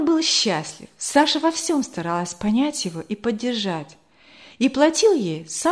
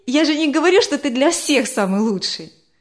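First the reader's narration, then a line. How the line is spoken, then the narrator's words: Laughing clarification. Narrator (Russian): Смеясь, уточнила она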